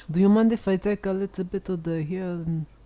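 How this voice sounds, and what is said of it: Put-on Israeli accent. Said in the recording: “now your accent is, you just sound like an Israeli guy.”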